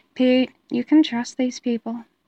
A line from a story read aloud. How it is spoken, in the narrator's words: Matt said quietly